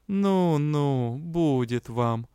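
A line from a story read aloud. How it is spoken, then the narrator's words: Mocking drawl. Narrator (Russian): издевательски протянул лорд Элохар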